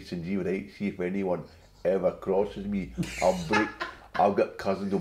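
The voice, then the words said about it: Glasgow Asian accent impression. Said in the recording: “I basically kind of did my dad, but with a governor accent ... talk like this”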